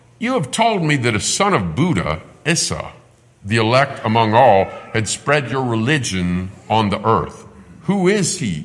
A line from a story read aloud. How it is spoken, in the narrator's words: asked